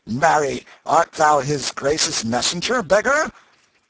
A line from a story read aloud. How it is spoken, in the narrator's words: one rude fellow said